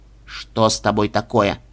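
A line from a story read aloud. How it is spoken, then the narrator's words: Sharp question. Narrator (Russian): резко спросил мышь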